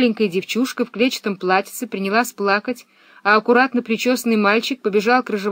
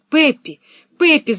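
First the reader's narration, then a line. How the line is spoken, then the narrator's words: Male shout. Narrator (Russian): закричал он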